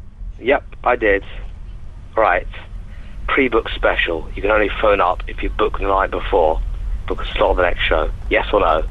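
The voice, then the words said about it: Posh English accent. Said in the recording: “sounding really posh ... I sound posh anyway”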